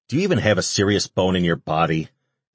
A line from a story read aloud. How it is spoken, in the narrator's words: Ash grumbled